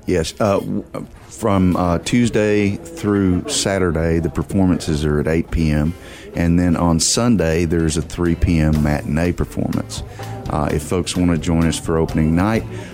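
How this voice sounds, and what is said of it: Texan accent. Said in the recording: “my native Texan dialect”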